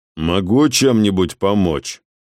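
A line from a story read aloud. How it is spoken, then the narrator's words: Icy inquiry. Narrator (Russian): ледяным тоном осведомился у Дефа Расп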